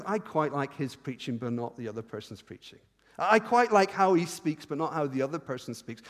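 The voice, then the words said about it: Speaker's own accent, fast speech. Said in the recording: “my accents. I've prayed about this a lot. God has never given me a different accent... or the speed of my speech”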